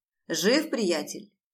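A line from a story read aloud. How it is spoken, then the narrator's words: Loud question. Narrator (Russian): громким голосом спрашивает Алекс у Хантера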